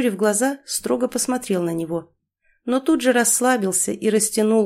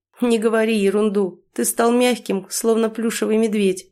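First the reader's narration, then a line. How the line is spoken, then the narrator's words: Laughing. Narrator (Russian): смеясь прокомментировал Ефим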